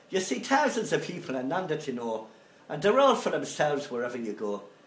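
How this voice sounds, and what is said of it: Put-on Irish accent drifting Scottish. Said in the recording (French): “mon accent irlandais a tendance à tourner écossais après quelques lignes”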